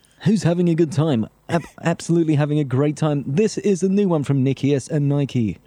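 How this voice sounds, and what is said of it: Cheesy radio DJ voice. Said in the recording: “sounded like cheesy, like Sunday afternoon Heart FM style DJs ... You did that too well ... my impression of one of the guys that used to be on Rinse”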